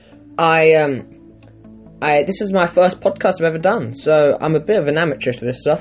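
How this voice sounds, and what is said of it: South London accent. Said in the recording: “I live in South London, as you can probably guess from my accent.”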